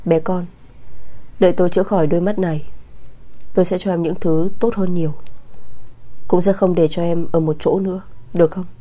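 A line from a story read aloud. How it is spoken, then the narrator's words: Tender low murmur. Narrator (Vietnamese): Mộ Kình Triệt cất giọng, thanh âm thủ thỉ trầm thấp, tràn đầy sự dịu dàng vô tận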